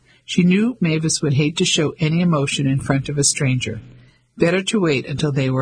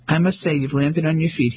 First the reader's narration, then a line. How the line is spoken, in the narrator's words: he said